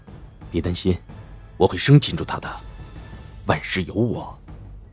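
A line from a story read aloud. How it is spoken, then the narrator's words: Gentle, soft. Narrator (Chinese): 齐然柔声道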